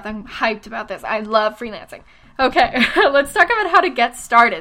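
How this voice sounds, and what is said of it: Breathless, excited speech. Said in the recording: “I'm out of breath”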